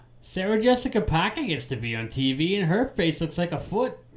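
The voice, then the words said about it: Weak Peter Griffin cartoon voice. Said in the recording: “Peter Griffin ... you didn't do the accent very well”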